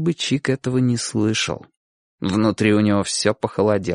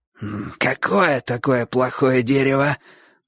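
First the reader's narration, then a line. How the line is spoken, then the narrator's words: Wheezy, somewhat anxious. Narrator (Russian): просипел Боч с некоторой тревогой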